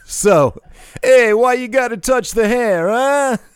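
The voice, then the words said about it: Exaggerated caricature New Jersey accent. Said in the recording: “talk with a New York, New Jersey accent ... he wasn't good at it at all ... a caricature of a Northeastern, New Jersey, New York accent ... sounded like he was trying to be John Travolta in Saturday Night Fever ... Just terrible”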